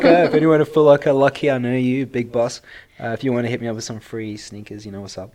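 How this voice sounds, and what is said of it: South African accent. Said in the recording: “my sexy accent is South African”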